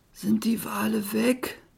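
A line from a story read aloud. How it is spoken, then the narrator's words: Croaking. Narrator (German): krächzte Schnee auf Berg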